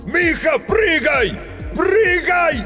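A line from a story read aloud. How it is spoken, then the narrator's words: Desperate exhausted shout. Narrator (Russian): Из последних сил закричал Грицко, уже понимая, что поздно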